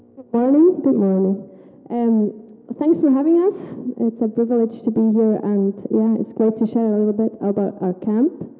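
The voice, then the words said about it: Swiss German accent in English. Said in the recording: “My accent is weird because I'm from Switzerland and I'm from the German part, so I'm not that great.”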